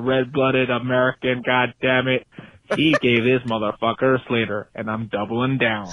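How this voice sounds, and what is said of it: Dodgy John Wayne-style American accent. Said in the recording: “watch out for a dodgy accent. I thought that was incredible. ... It sounds like John Wayne's robot”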